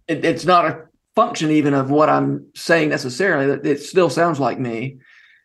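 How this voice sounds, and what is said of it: Southern US accent. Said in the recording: “it always sounds like somebody who grew up in Georgia and spent his adult life in Tennessee. That's just kind of my accent.”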